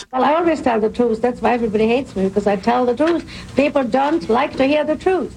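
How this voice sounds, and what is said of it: Hungarian accent. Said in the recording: “Hungarian accent”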